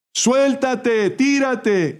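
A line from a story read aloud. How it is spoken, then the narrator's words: Several voices shouting. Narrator (Spanish): gritaban otras voces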